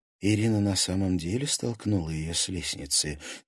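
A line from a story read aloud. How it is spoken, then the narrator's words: Quiet question. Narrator (Russian): тихо поинтересовалась Лиза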